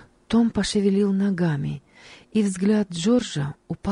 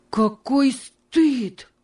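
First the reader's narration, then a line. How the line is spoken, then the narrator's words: Exclaiming. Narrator (Russian): воскликнул он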